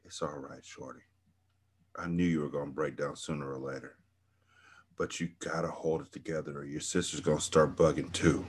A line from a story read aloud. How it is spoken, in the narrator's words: Midnight whispered in my ear